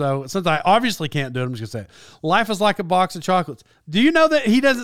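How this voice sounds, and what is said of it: Usual voice. Nothing is said of it.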